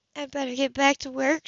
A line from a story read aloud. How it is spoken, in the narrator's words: she said unsteadily